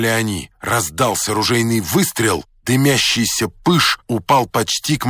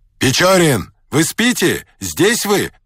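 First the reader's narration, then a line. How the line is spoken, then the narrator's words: Captain shouting. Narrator (Russian): кричал капитан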